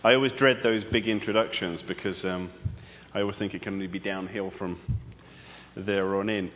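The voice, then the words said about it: British accent. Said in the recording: “get used to my accent ... You are not in London right now ... I'm from Britain.”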